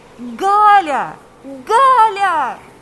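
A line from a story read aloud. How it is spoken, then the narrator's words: Shouting. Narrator (Russian): кричал Павел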